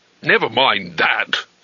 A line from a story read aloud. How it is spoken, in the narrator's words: snapped Jigladwort